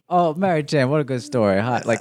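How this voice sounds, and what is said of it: Tommy Wiseau impression. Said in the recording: “doing a Tommy Wiseau impression.”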